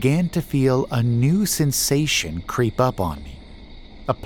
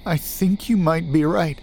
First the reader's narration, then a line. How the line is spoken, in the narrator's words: he answered, his voice wavering